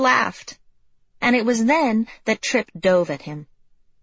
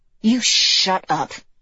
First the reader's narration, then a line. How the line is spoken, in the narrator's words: hissed